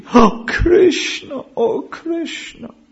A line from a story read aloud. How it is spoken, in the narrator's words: loudly sobbing